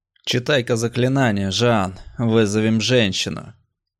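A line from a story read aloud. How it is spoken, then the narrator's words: Lustful bass. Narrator (Russian): сладострастным басом предложил Барри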